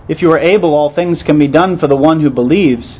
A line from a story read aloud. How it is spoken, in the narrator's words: Jesus quotes impatiently back at him and insists